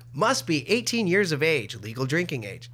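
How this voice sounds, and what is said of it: Robotic breathless radio-commercial voice. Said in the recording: “doing an impression of a robot voice ... they started taking out air or breathing out of the commercials to shave time ... that's a manufactured voice”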